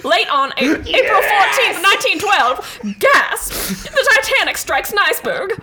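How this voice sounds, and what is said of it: Put-on transatlantic accent. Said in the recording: “You had to do it in the transatlantic accent ... We are laughing at the voice.”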